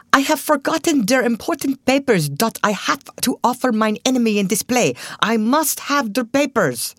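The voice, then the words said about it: Pronounced put-on German accent. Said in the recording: “with a pronounced German accent”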